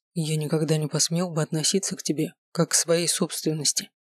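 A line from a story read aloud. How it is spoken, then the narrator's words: Quiet, hesitant. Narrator (Russian): тихо сказал он наконец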